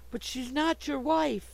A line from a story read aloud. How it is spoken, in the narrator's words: cried Sue distractedly